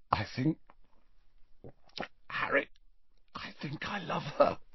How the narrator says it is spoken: said Ron in a strangled voice

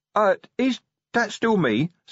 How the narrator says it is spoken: said nervously

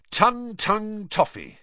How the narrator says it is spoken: said Fred brightly

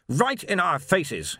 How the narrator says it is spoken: snapped

